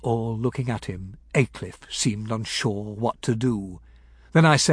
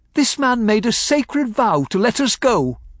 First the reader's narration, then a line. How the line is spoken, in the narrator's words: I said loudly